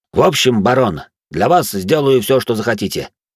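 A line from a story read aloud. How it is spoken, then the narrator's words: Confident voice. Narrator (Russian): произнес он уверенным голосом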